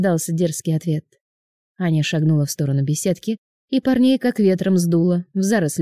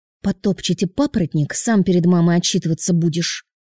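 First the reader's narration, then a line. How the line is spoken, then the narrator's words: Girl's hiss. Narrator (Russian): Прошипела девушка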